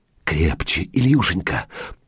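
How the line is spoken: Whispering. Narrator (Russian): прошептала

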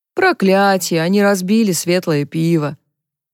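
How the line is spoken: Dismayed sigh. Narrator (Russian): Вздохнул кто-то

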